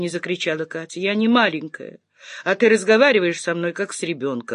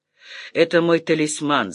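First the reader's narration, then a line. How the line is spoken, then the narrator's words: Laughing. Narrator (Russian): засмеялся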